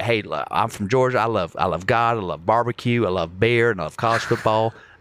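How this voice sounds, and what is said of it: Put-on Southern Georgia accent. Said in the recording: “I know how to do the Georgia accent ... I'm sounding Texas now”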